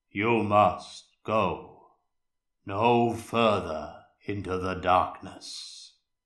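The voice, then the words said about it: Deep male character voice. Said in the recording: “in a deep male voice.”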